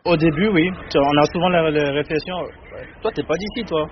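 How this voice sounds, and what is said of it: Beninese French accent, unusual R. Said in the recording (French): “Mon accent, c'est... Des fois, il y a par exemple les R qui ne sont pas bien prononcés ... Du Bénin. Je suis béninois.”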